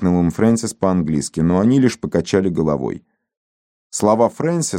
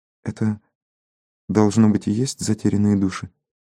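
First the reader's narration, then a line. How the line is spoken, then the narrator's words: Whispering. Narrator (Russian): шепнула Леонсия Фрэнсису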